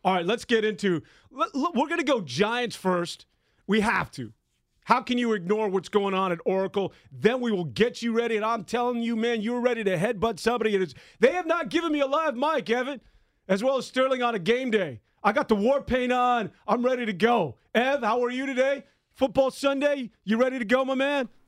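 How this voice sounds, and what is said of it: Loud, high-energy shouting. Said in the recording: “You can tell me to stop screaming if you want. ... keep up the energy”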